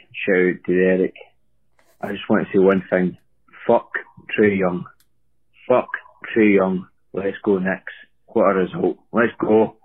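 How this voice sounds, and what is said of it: Scottish accent. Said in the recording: “from Scotland here ... your other Scottish fan ... in case Barry is struggling with my accent”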